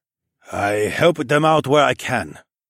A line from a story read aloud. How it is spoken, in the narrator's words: Quan grunted